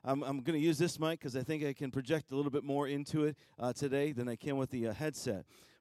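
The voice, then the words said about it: Slightly hoarse voice. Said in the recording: “My voice is just a little bit um, uh, hoarse”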